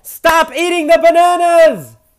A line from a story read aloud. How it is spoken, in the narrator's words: one of the monkeys yelled back